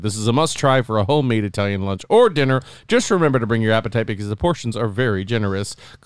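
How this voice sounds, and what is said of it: Put-on Canadian twang. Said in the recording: “my little Canadian twang I put on there”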